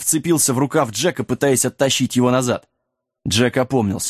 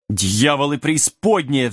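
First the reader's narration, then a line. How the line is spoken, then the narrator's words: Mad king's roar. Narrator (Russian): взревел сумасшедший король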